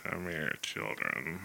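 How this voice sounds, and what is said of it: Creepy character voice. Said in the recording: “you want me to do the voice? ... It's so creepy. ... It is so bad. I'm going to have to super creepy.”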